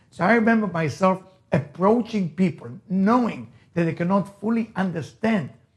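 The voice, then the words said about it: Israeli-accented English. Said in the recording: “As you can hear my accent, I'm Israeli. ... not exactly I can pronounce the T and H like a perfect American”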